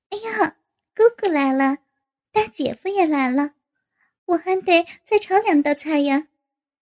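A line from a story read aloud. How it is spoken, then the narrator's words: Cheerful laughing. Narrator (Chinese): 赵颖在厨房里笑着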